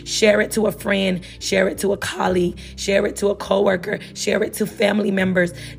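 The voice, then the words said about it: Voice sounds strained and unwell. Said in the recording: “I'm so sorry about my voice. I hope that it gets better”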